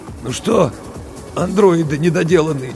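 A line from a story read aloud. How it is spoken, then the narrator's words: Hoarse. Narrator (Russian): сипло сказал Букин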